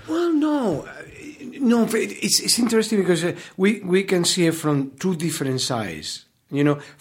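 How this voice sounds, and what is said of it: Foreign accent in English. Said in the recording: “the Americans are so enamored of your accent ... They're amorous of your of your uh, of your accent”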